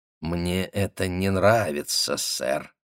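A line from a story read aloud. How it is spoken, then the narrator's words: Muttered through clenched teeth. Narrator (Russian): Гутман пробормотал сквозь зубы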